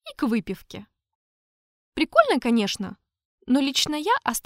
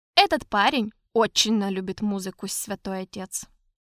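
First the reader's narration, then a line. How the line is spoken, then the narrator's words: Calm reply. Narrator (Russian): Спокойно ответил трактирщик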